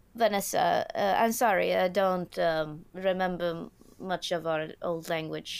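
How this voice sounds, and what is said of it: Broken English mixed European accent. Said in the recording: “her weird German, Swedish, English, broken English accent”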